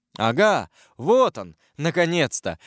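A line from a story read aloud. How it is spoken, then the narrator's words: Exclamation. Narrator (Russian): воскликнул Ламоль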